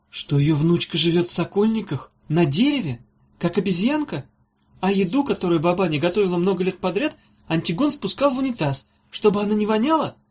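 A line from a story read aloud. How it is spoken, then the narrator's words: Trembling question. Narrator (Russian): дрожащим голосом спросила Ирка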